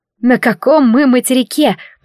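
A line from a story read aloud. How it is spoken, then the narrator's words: Breathless moan. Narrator (Russian): простонала, с трудом поспевая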